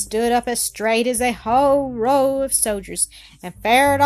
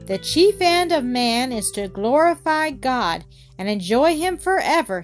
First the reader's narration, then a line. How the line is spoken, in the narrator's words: he shouted